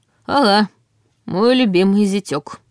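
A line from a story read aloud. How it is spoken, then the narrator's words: Gloomy. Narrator (Russian): мрачно сказал Ваня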